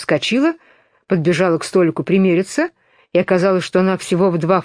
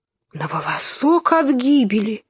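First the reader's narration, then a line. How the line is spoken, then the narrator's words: Frightened yet relieved exclamation. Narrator (Russian): воскликнула Алиса, весьма перепуганная внезапным превращением, но довольная тем, что благополучно спаслась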